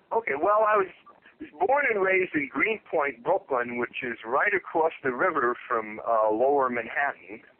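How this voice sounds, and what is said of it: Midwest accent with slight New York. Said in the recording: “your accent, I couldn't hear, I hear it every now and again, the New York accent, but I hear more Minnesota, Midwest accent.”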